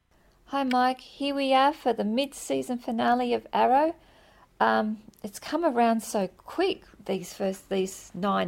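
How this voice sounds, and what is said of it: Australian accent. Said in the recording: “awesome Australian accent ... her Australian accent”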